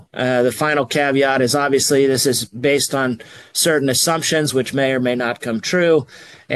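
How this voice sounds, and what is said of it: Voice sounds unwell, under the weather. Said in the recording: “I'm a little under the weather here, so pardon my voice.”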